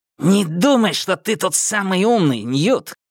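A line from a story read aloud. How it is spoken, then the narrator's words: Angry hiss. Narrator (Russian): прошипел Галли, побагровев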